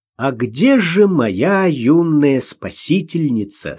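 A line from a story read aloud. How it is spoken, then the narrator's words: Plain. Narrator (Russian): спросил Ростовцев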